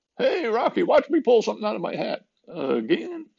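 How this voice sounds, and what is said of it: Not very good cartoon character impression. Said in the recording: “that's not a very good Bullwinkle impression.”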